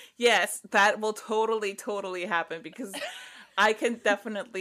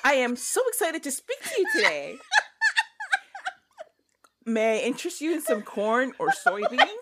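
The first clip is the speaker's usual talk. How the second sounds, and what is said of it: Generic American accent. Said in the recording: “talk like a generically accented white person in the United States ... I'm doing it now ... You nailed it.”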